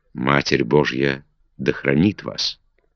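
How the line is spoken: Whisper. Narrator (Russian): И шепотом

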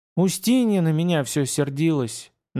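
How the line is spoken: Sigh. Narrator (Russian): Настя снова вздохнула

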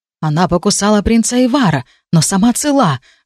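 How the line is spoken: Loud muttered whisper. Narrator (Russian): громким шепотом буркнул сэр Алви

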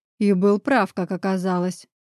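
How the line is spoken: Growled. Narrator (Russian): прорычал я

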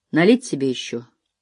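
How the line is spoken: Dispassionate inquiry. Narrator (Russian): осведомился Харт бесстрастным голосом

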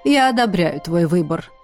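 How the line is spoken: Plain. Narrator (Russian): сказала бабуля

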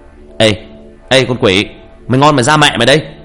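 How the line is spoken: Loud shout. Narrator (Vietnamese): Tôi hét lớn

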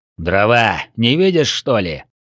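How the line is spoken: Rude answer. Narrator (Russian): грубо ответил Горилла

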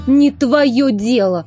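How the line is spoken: Snapping retort. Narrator (Russian): огрызнулась Инна

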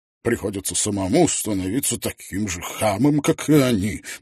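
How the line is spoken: Grumbling. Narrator (Russian): проворчал он

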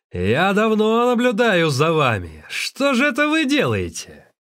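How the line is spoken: Thunderous roar. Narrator (Russian): владелец посоха громовым голосом заорал

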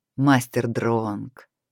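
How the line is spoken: Smiling. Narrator (Russian): улыбнулся Эрвин

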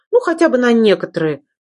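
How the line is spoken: Chuckling correction. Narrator (Russian): хохотнув, исправилась

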